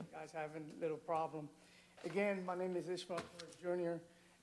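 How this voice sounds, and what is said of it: Strong accent. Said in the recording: “I have a very strong accent”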